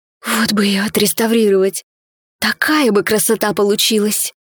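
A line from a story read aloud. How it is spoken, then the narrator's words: Whispered under breath. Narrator (Russian): Прошептала себе под нос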